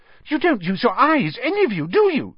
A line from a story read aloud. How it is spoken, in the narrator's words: snapped